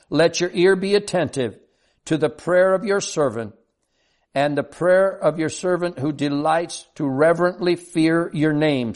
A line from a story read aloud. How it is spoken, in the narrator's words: still pleading